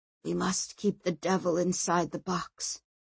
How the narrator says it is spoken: whispered Gregor

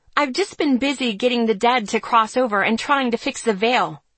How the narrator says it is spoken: I snapped

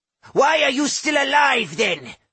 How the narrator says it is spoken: Laosh shouted vindictively

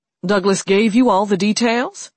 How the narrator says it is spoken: He asked loudly

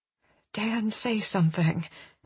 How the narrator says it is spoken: I whisper

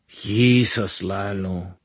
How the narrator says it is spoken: he muttered

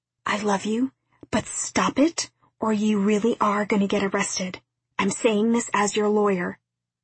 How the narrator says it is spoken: Finally, Val whispered

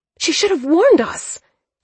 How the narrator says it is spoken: Thea spat out

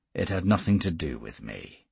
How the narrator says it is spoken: he said sullenly

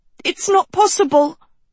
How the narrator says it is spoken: Sophie sputtered

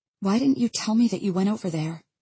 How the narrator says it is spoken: I ask in a hurt voice

